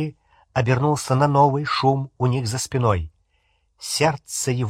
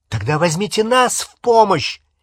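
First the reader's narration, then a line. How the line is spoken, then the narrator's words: Angry shout. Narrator (Russian): сердито крикнул Невилл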